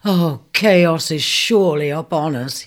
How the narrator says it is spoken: he groaned

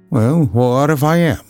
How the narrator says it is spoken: McMurdo answered in a surly voice

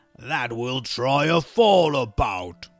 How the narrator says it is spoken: roared the troll

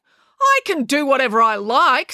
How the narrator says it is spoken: snapped April

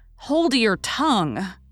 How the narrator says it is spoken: cried Joe

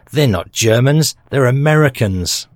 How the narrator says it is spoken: Suddenly the German shouted

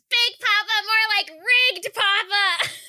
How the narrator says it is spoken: Fran screams

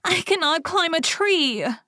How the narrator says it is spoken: sobbed

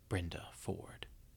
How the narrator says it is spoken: the whisper came

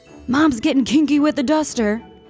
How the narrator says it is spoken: My uncle exclaimed

